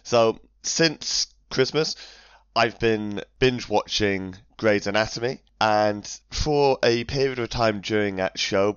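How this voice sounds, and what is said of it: Strained, failing voice. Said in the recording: “My voice is going today, so it might be a little bit off.”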